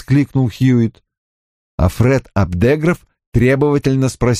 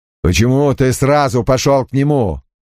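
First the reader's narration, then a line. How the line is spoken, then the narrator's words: Stern question. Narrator (Russian): строго спросил Крэмер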